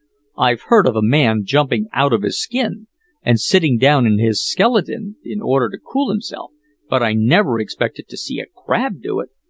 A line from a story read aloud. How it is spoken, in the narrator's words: exclaimed Peterkin, drawing a long breath